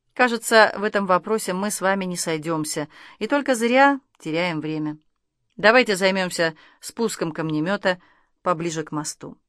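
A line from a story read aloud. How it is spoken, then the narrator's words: Pointedly calm. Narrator (Russian): Артем подчеркнуто спокойно произнес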